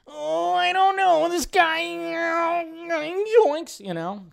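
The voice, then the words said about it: Terrible cartoon character voice impression. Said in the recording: “I did my terrible Shaggy impression”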